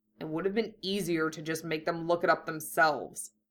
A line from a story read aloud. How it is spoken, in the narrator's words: Hiei muttered